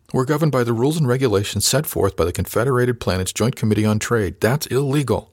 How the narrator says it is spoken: sputtered

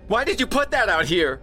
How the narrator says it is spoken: She shrieked

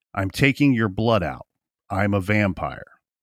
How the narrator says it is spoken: said calmly

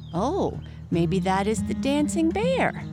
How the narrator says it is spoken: exclaimed the lonely goat

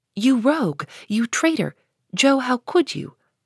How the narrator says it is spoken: cried the 3 girls

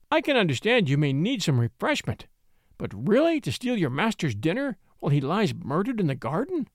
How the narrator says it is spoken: cried

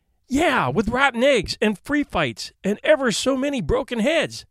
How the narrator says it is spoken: exclaimed Eric

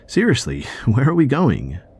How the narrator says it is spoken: I asked again, laughing uncomfortably

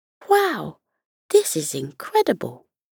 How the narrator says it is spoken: Murray, their arty child, exclaimed

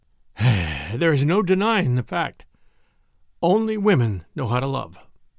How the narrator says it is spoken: The Marquis, whose eyes were full of tears, sighed and said

